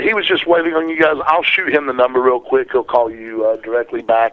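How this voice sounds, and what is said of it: Noticeable regional accent. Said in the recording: “you have a delightful accent”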